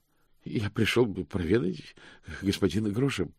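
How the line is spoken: Bleating. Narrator (Russian): проблеял мокрец

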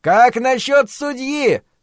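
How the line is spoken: Shouted. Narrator (Russian): прокричал кто-то

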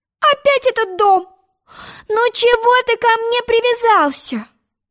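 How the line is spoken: Pleading. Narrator (Russian): взмолилась Алиса

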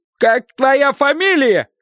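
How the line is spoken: Shouting. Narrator (Russian): кричал кучер

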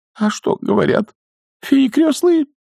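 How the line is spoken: Near tears. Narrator (Russian): чуть не зарыдала она

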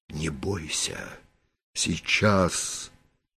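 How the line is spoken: Commanding order. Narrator (Russian): повелительно приказал Ариэль

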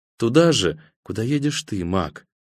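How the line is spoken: Quiet. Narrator (Russian): тихо сказала она

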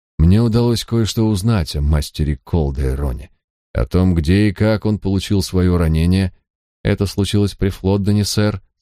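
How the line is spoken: Plain. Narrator (Russian): сказала девушка

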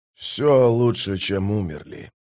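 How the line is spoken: Muttered. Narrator (Russian): пробормотал Кеннеп

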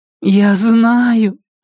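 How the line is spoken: Moan. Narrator (Russian): простонала она

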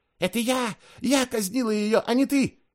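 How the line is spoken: Shrieking. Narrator (Russian): визжала Евсевия

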